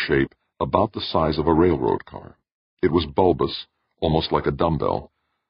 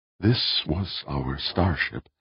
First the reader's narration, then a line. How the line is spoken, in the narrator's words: Audrey said, his voice barely above a whisper in the big, shadowy circular room